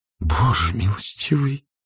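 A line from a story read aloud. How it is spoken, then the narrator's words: Dazed mumble. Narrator (Russian): пробормотала она, еще не до конца осознав значение услышанного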